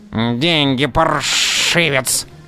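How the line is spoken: Short man hissing. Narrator (Russian): шипел низенький

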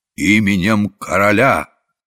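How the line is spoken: Courtier's solemn proclamation. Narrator (Russian): царедворец торжественно провозглашая

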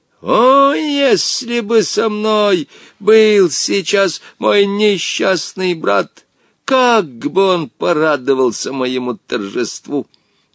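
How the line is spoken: Gloating shout. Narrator (Russian): Омар Юсуф, злорадно наблюдавший за быстрым угасанием Жени, не выкрикнул

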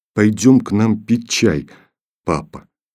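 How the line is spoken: Plain. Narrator (Russian): сказала она

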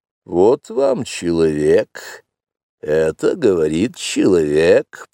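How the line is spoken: Grumbling under breath. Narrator (Russian): проворчала Багира себе в усы

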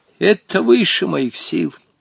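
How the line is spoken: Sad old man's reply. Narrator (Russian): печально ответил старик

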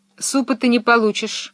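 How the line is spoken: Stern. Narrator (Russian): строго сказала Фрекен Розенблюм

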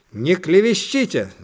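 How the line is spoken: Hot-tempered shout, mother. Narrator (Russian): запальчиво крикнула мама

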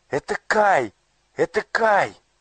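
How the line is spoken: Joyful exclamation. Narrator (Russian): радостно воскликнула Герда

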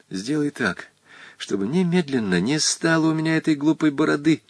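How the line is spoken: Continued whisper. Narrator (Russian): Волька продолжал шепотом

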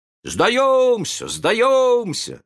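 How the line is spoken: Shouted. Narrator (Russian): закричали они

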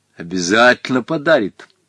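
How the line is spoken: Stern repetition. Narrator (Russian): строго повторил Гога

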